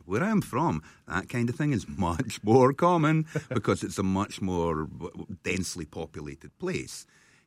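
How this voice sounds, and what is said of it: Speaks with a non-local accent. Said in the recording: “You hear my accent.”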